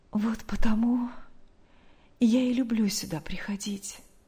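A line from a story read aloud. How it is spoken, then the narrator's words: Quiet secretive smiling voice. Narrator (Russian): снова улыбнувшись, тихо, будто не желая открыть свой секрет посторонним, сказала Мария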